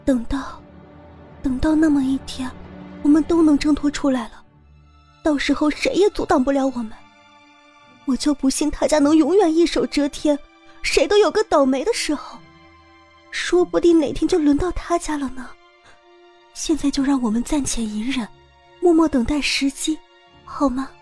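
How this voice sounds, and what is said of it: Soft whispered speech. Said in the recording (Chinese): “小声的在他耳边说着”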